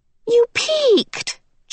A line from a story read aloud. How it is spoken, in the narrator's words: Charles Wallace cried indignantly